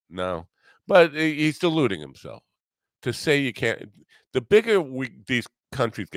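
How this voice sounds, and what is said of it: Usual voice. Nothing is said of it.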